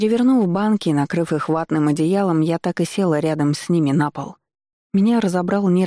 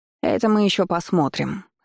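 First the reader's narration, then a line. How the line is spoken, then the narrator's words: Old woman's snort. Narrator (Russian): фыркнула бабуля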